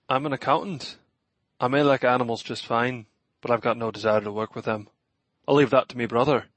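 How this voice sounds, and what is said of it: Pronounced Irish accent. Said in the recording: “Your accent, is your family originally from Ireland? ... Aye, me family's originally from Ireland ... accent is pretty pronounced”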